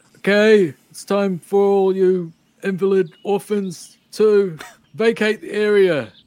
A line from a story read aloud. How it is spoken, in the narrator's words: just yelling out